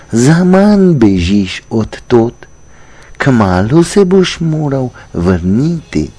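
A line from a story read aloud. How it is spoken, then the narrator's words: Sad star speaking. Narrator (Slovenian): Zvezda je žalostno gledala na mladeniča pod sabo in rekla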